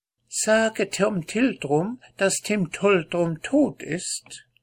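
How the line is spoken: Squeaky voice. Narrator (German): sie sprach zu mir mit quiekender Stimme

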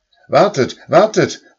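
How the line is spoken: Called out. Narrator (German): rief er

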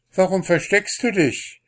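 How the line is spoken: Call. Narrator (German): rief sie

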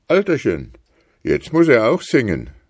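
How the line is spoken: Pastor calling out. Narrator (German): rief der Pastor

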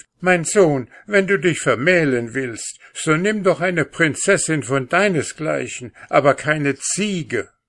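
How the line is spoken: Mother wailing and crying out. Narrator (German): die Mutter fing sie an zu jammern und zu weinen und rief

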